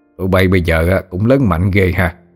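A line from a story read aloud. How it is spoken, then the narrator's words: Old man, sneering. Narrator (Vietnamese): Ông ba bỏ tay xuống, cười khẩy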